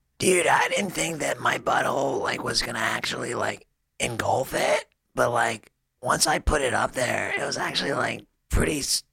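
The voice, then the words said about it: Imitates another person's voice. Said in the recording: “you do a good Steve-O ... I do a pretty good Steve-O”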